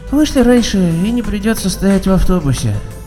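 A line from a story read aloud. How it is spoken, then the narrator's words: Woman's sleepy hoarse wheeze. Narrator (Russian): сонно просипела женщина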